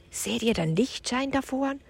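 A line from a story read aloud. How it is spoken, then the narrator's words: Whisper. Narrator (German): wisperte Leon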